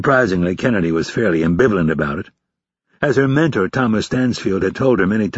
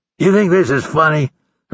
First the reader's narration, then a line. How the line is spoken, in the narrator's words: Hurley snarled